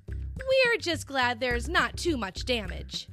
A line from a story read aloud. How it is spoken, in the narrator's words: said Ryder